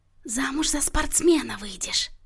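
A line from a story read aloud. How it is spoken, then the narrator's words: Whisper with muffled giggle. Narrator (Russian): прошептала Марианна и хихикнула, прикрыв рот сухонькой лапкой в сетчатой перчатке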